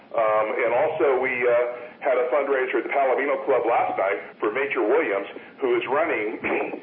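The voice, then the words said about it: Very fast speech. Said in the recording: “I apologize for saying this so quickly”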